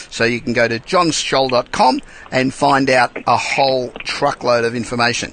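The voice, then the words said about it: Australian accent. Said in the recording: “being Australian accent”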